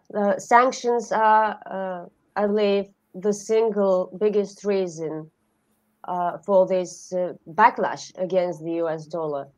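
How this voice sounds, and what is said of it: Voice rough from a cold. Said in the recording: “Please excuse my voice. I'm having a cold”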